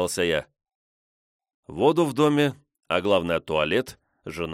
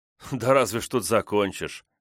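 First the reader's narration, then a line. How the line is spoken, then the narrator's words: Sighing. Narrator (Russian): вздохнул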